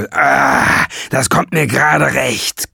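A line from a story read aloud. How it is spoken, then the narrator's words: Man growling. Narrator (German): knurrte er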